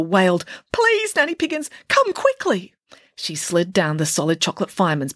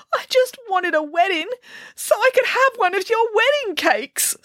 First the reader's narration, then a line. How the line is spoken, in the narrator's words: sobbed the princess